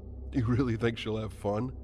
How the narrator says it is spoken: Paul laughed and smirked

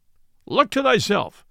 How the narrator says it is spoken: cried Robin

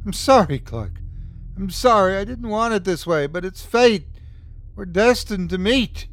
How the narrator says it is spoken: the accountant sputtered even as his doctor tried to save him

